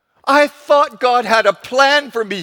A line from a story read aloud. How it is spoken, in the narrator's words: he cried